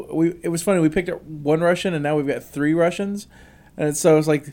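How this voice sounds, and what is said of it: Usual voice. Nothing is said of it.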